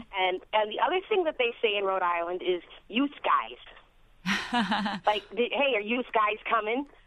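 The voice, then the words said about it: Rhode Island accent, New York-like. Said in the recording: “many of the things I'm hearing in ... accent have been associated with New York ... she said Florida”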